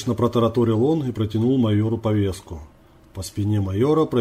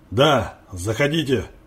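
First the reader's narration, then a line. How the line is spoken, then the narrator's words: Stern, muffled through door. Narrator (Russian): Суровым тоном донеслось из-за двери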